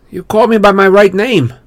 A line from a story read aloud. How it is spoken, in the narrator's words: I said